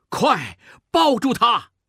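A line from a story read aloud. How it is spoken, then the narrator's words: Shout. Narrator (Chinese): 孟梅喊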